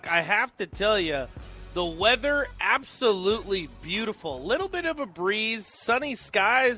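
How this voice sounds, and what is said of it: Weather-forecaster style delivery. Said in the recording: “I sound like a meteorologist”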